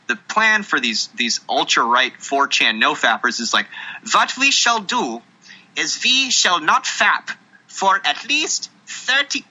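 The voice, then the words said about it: Clumsy put-on accent, slipping. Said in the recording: “I can't do accents. ... slipping out of an accent every now and then. It's fucking hard”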